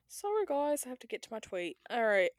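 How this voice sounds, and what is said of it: Put-on British accent. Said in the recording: “what's up with this British accent?”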